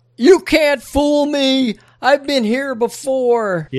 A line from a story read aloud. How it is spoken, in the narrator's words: Jerry Horn in the woods holding up his telephone, screaming out